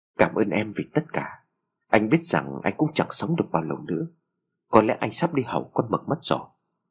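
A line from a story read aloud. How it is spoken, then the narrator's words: Whispering. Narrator (Vietnamese): Phát thì thào lên tiếng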